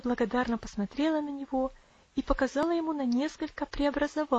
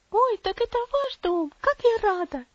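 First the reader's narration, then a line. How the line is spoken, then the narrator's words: Girl exclaiming joyfully. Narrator (Russian): воскликнула девочка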